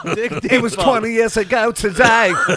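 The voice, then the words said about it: Put-on English accent. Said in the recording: “Did you slip into an English accent?”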